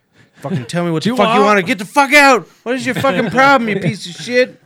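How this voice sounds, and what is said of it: Angry shouting imitation of brother. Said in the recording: “This is my impression of my brother and I ... He screamed at a customer from across the room”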